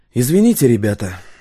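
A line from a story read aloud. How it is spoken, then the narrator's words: Breathy exhale. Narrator (Russian): выдохнул Стас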